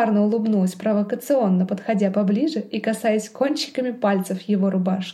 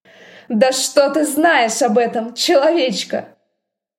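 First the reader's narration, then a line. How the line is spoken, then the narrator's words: Roar. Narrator (Russian): взревел Дроу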